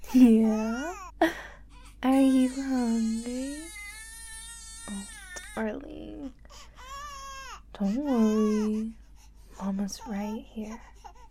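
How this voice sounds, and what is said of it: Cooing baby-talk voice. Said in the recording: “I'm gonna talk to you in this baby voice”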